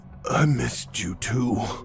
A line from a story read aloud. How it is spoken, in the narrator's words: Chester breathlessly replied